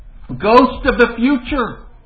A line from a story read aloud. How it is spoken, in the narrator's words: exclaimed